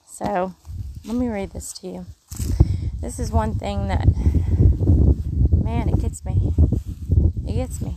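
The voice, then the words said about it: Mississippi Southern accent. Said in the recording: “you hear my accent? ... I'm already saying y'all a little more with the Mississippi sound”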